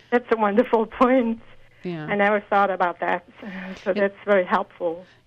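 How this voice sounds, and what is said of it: Speaks with a noticeable accent. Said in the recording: “Even with my accent. ... I love your accent.”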